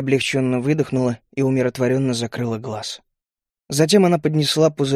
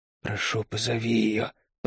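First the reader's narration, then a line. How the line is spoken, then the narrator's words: Hoarse rasp. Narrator (Russian): прохрипела она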